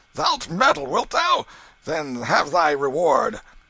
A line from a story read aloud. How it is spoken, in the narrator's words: Canty roared out